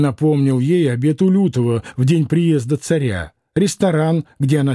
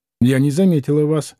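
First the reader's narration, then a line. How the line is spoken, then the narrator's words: Indifferent tone. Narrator (Russian): сказала она безразличным тоном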